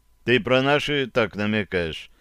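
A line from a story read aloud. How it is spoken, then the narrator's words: Insinuating, teasing question. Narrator (Russian): я вкрадчиво осведомился у друга, подначивая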